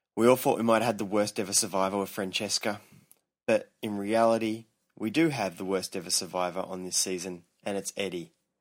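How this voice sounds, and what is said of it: Noticeable accent. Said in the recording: “Ooh, an accent.”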